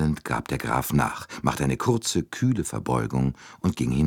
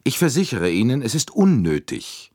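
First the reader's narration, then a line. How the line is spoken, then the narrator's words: Curt repetition. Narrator (German): wiederholte Andrenji schroff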